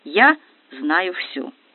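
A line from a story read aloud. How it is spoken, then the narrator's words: Calm, confident. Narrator (Russian): Арина же, вдохновленная удачей, спокойно заявляет ошарашенной Наташе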